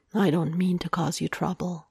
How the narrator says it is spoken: he murmurs, and he sounds so incredibly guilty

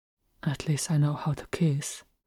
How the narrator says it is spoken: Langa muttered

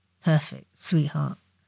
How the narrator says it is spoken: Potter muttered

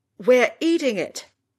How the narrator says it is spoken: Ron yells from the vicinity of the living room

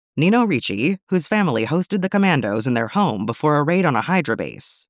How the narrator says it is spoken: she says

